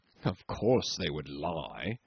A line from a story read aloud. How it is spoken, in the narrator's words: One old skipper tickled my ear with his white beard to murmur